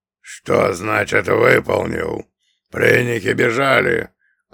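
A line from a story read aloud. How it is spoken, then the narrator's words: Growled. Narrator (Russian): рыкнул он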